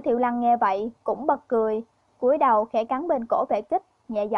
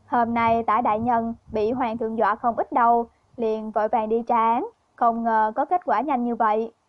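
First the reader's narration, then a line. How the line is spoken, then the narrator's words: Laughing. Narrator (Vietnamese): Vệ Kích bật cười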